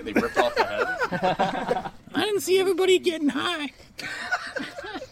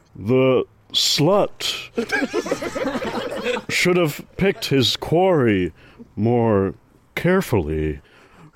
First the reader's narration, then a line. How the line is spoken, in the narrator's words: roared the victor in a mocking baritone growl